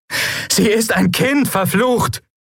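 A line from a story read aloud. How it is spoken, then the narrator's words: Shouting at shadows. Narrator (German): schrie Lien die Schatten an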